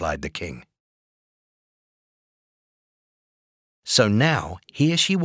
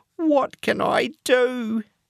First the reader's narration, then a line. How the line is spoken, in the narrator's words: cried